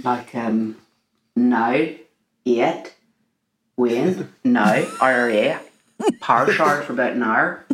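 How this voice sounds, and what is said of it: Put-on Northern Irish accent. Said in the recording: “A Northern Irish accent, which I sort of have to get into with a few words.”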